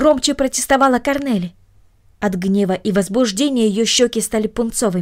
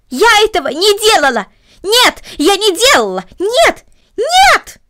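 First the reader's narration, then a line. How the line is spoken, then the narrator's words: Loud scream. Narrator (Russian): громко закричала Корнелли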